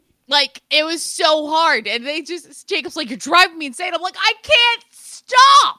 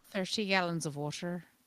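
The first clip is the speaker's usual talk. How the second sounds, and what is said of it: Put-on Irish accent. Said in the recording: “the Irish ... this is a fun accent ... Irish accent”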